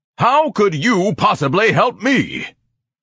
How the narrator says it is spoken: Ignatius bellowed, baring a tan fang or two

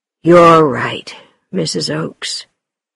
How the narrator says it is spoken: said Longridge in an exhausted voice

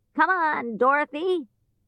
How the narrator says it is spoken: he shouted

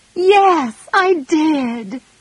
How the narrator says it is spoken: cried Meg, hiding her face again

